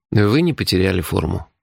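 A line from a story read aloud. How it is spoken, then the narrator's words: Sighing. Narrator (Russian): вздохнул я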